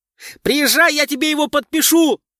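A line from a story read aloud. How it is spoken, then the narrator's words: Moaning. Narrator (Russian): Задумов уже не орал, а стонал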